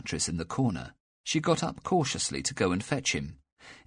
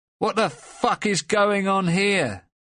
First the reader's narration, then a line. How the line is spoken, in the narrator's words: Lucas yelled in English